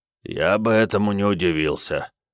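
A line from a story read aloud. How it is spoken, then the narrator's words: Hoarse reply. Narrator (Russian): хрипло отозвался отец Эндрю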